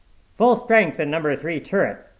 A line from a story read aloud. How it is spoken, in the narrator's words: shouted the commander